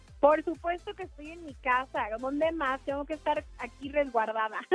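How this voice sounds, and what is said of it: Northern Mexican Sinaloa accent, punchy. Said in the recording (Spanish): “Tu acento norteño... Es un poco norteño... el típico acento, o sea, el atípico acento sinaloense... Así, golpeadón.”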